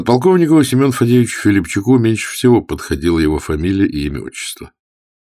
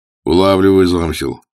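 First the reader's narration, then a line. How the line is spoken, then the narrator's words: Wry grunt. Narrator (Russian): хмыкнул Свиридов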